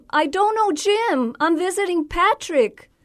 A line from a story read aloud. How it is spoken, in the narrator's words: exclaim